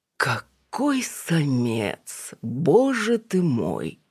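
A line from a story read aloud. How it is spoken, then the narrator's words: Moaning. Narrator (Russian): простонал спутник Алины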